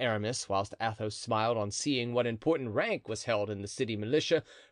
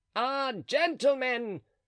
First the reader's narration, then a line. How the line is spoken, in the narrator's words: cried Planchet